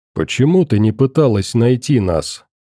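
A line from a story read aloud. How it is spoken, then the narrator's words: Quiet male question. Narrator (Russian): Тихо, в отличие от удара, задал вопрос мужчина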